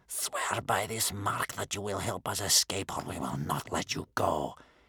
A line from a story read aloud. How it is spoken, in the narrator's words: hissed Bear Cub's grandmother